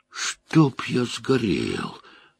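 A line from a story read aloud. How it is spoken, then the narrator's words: Exhaled. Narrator (Russian): выдохнул Мэтт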